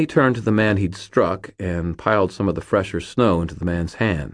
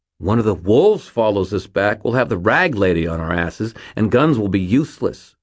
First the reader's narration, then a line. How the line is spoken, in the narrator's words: Fitz snapped